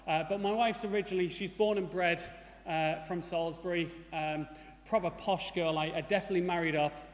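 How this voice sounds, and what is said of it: Mixed northeast English accent. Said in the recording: “As you'll probably notice from my accent, I'm not originally from Salisbury. ... I have a mongrel accent ... I lived in the northeast for quite a long time ... I call it a watered-down Geordie, with a little bit of smoggy in there”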